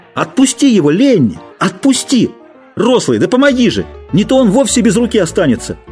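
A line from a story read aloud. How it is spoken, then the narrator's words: Kept shouting. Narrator (Russian): А Джордж все кричал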